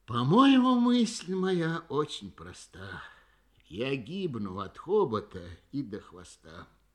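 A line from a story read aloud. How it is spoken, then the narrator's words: Weary repetition, elephant. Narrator (Russian): слон устало твердил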